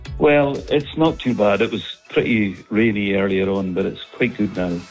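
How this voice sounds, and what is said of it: Scottish accent. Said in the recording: “You've got such a lovely accent. ... I'm phoning from Aberdeenshire.”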